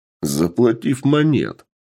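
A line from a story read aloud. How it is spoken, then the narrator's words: Short laugh. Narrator (Russian): хохотнул Сергей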